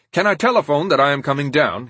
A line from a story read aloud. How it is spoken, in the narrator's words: he asked